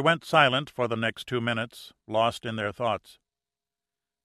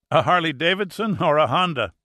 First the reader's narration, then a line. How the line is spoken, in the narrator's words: asked, laughing